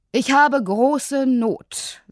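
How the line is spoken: Firm voice. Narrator (German): sagte er mit fester Stimme

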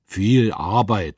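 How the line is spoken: Snapped. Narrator (German): schnauzte Pfand

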